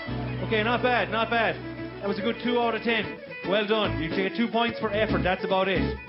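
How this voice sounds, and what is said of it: Speaks with a noticeable foreign accent. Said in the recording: “Is the accent too thick? No, it's okay?”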